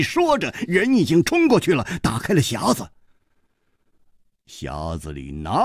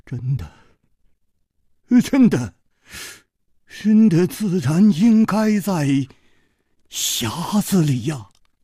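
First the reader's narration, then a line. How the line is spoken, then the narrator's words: Trembling voice. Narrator (Chinese): 公子金半花的面色 又变了，他颤声说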